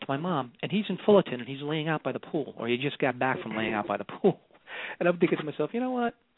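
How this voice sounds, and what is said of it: New York accent. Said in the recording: “you still have your New York accent. I can hear that. ... you, to me, you sound so New York. ... Very New Yorkish.”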